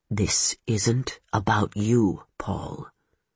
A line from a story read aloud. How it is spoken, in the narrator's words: Ulrich said, his voice low